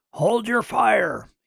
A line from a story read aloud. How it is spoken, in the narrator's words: he shouted into his radio